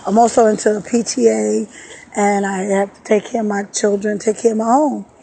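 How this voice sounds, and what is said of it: Slightly hoarse voice. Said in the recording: “my voice is a little hoarse because, like I said, I'm detoxed and I was sick for a few days”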